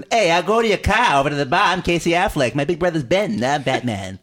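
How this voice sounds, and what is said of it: Higher pitched Boston accent. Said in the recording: “You want a higher pitched Boston accent?”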